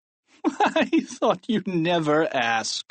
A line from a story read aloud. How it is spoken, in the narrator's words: laughed Principal Krupp